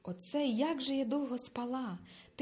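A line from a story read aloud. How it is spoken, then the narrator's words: Quietly, a girl. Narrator (Ukrainian): тихо промовила дівчина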